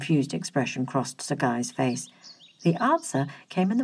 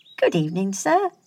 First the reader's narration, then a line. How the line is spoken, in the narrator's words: said Will merrily